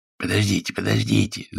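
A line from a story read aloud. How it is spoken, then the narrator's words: Wheezing. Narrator (Russian): захрипел Гюс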